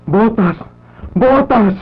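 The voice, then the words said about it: Shouting a name. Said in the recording (Spanish): “No grites”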